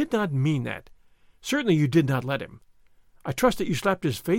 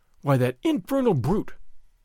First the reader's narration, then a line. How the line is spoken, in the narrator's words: Don Diego exclaimed